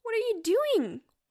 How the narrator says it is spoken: Walter cried

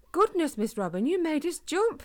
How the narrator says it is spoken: exclaimed Harris

